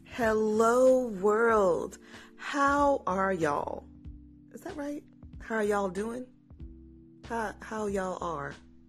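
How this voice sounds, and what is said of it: Southern American twang. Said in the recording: “my southern twang”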